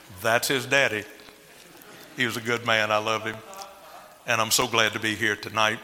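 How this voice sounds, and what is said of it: Cajun Louisiana accent. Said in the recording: “As you can tell from my accent ... I'm actually full-blooded Cajun out of Louisiana”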